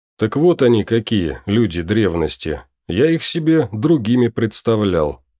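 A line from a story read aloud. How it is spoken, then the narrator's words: Snort. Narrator (Russian): хмыкнул Ирвин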